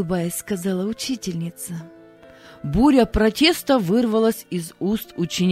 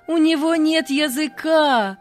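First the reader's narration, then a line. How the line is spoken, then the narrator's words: Loud shouting children. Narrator (Russian): громко закричали ребята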